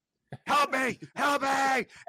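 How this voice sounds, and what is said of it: Screaming cries for help. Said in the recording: “I'm screaming”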